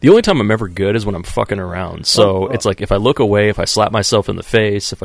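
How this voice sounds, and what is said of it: Usual voice. Nothing is said of it.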